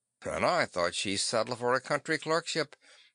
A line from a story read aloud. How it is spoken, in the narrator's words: the captain muttered